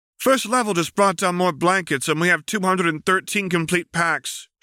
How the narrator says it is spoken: she shouts back, climbing over stacks of supplies

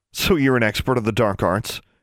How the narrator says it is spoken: Alexandra snorted

